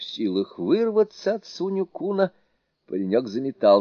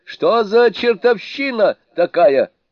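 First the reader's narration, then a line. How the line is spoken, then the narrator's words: Shouting. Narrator (Russian): кричал он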